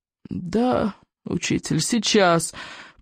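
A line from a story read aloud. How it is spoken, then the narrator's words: Groan. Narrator (Russian): простонал Икинг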